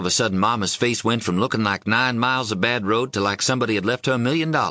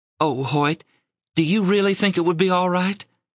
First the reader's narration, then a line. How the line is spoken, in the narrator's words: asked anxiously